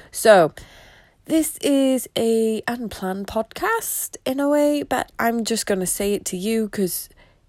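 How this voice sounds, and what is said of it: Slightly congested voice. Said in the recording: “I've got a bit of a cold.”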